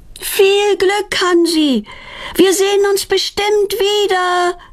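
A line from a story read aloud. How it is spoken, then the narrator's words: Calling after someone. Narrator (German): ruft Petronella ihm nach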